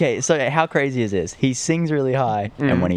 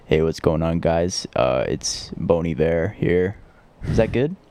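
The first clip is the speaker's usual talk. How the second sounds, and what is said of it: Low voice, slight southern accent. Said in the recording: “let me do my impression of Bon Iver ... when he talks like really this. Low. And he has a little bit of a southern accent”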